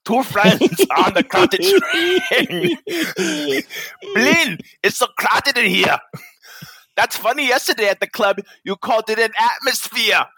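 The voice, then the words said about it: Put-on Russian accent. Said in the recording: “Please use your Russian accent.”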